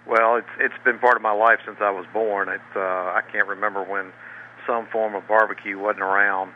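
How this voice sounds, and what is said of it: Southern US accent. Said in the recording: “You may be able to note from his accent that he's a southern boy from Raleigh, North Carolina”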